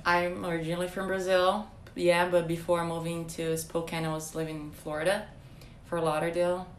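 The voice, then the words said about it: Slight Brazilian accent. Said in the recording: “they might get an idea maybe by your accent a little bit, that you're not from here ... you're from Brazil”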